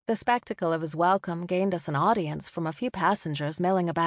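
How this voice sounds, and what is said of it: Usual voice. Nothing is said of it.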